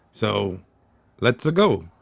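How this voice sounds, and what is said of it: Imitated Mario voice, not very good. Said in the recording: “I don't do a good Mario voice”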